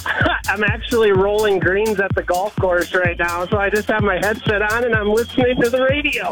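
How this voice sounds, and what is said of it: Upper Midwest regional accent. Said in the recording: “You sound like a youper.”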